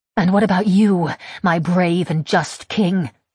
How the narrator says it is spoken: I snarl

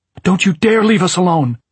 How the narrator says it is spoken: She shrieked at him

